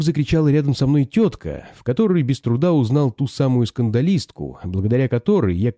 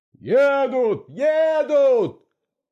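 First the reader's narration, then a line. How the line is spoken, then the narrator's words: Several voices shouting. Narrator (Russian): закричали другие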